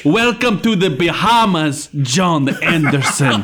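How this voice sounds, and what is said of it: Put-on Mexican accent. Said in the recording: “I like how I use like almost like a Mexican accent.”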